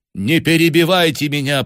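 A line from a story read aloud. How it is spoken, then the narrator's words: Woman, commanding tone. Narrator (Russian): повелительным тоном произнесла женщина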